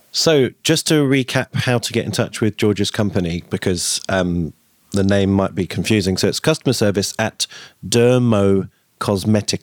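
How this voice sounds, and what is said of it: British accent. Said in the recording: “because of your accent, I'm just making sure ... I'm British”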